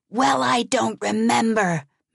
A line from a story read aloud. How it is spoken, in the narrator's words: Madeline screamed back